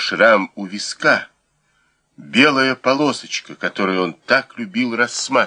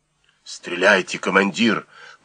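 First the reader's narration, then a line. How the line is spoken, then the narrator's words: Hiss from behind. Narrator (Russian): прошипел за спиной Сик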